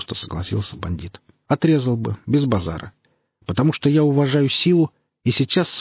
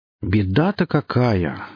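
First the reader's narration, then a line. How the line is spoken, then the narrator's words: Sighing. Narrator (Russian): вздохнул сионист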